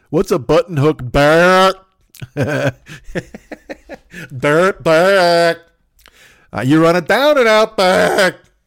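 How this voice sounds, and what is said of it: Dumb, slow-witted imitated voice. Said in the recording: “he might be kind of a duh, like one of those dudes, like kind of a duh, duh, duh ... that's my Mitch Trubisky impression”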